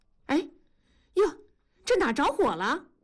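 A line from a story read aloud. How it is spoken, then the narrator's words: Startled cry. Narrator (Chinese): 同志和大庄……啊呀的叫了一声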